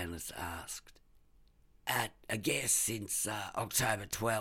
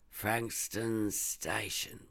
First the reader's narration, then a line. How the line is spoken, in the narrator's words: repeated Stainless slowly